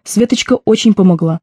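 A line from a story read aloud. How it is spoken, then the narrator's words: Slightly offended mother. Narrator (Russian): добавила мама несколько обиженным тоном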